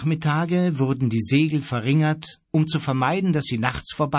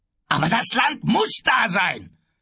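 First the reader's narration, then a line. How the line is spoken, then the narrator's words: Shouting from a distance. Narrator (German): schrie Kapitän Davenport ihnen von der Hütte aus zu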